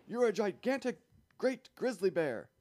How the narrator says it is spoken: shouted the chief of police

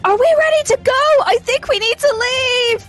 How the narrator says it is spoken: shout

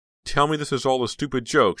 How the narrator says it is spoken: she said, her voice trembling

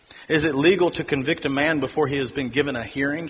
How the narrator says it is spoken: asked

